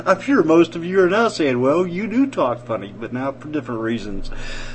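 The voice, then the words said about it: Drawn-out Southern US accent. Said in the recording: “I couldn't wait to get my southern accent back, and I suppose I draw it out sometimes more than I should”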